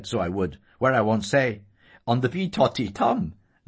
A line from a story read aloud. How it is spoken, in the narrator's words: laughed Sissy merrily